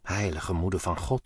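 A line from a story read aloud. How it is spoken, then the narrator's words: Stammering. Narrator (Dutch): stamelde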